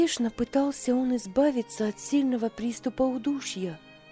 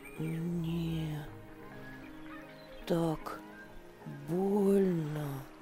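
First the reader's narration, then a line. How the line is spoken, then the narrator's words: Boy mumbling. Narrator (Russian): Пробормотал мальчик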